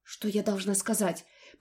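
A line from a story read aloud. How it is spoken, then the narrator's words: Unsure babble. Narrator (Russian): пролепетала я, вовсе не уверенно и сдержанно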